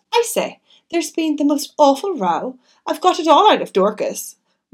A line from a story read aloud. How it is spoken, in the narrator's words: Cynthia greeted me eagerly with